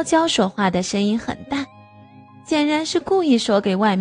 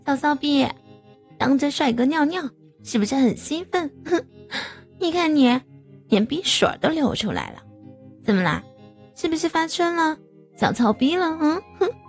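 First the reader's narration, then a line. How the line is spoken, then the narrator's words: Mocking. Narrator (Chinese): 取笑我说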